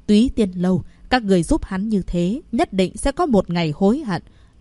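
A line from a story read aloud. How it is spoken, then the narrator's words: Harsh, menacing tone. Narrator (Vietnamese): Mạc Thanh Huyền … gằn giọng nói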